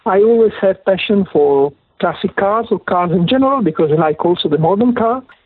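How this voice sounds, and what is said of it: Italian accent in English. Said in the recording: “please excuse me for my Italian accent ... and my non perfect English”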